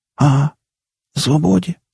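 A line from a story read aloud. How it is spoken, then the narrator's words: Hoarse rasp. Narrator (Russian): хрипнул кипяток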